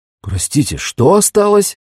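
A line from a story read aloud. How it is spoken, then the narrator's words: Astonished exclamation. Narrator (Russian): пораженно воскликнул Декамбре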